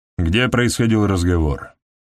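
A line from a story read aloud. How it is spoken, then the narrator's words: Gloomy. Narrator (Russian): После недолгого раздумья Элеонора мрачно сказала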